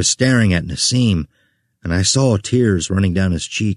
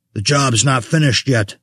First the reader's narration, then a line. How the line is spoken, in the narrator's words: Vessel spat